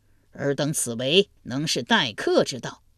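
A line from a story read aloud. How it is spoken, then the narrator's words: Suppressed anger. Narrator (Chinese): 胡衍强压怒火道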